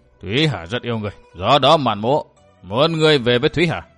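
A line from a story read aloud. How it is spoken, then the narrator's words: Sighing speech. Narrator (Vietnamese): buông một tiếng thở dài nói tiếp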